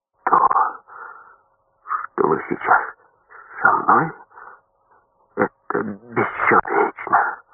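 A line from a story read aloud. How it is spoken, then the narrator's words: Said hoarsely. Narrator (Russian): Белыш хрипло сказал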